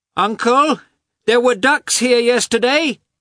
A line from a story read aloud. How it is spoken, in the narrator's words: he shouted